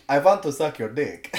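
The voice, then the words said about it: Poor put-on Russian accent. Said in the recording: “me trying to do a Russian accent, which is terrible”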